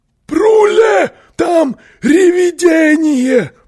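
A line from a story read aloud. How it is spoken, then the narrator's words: Screaming. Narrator (Russian): завопил он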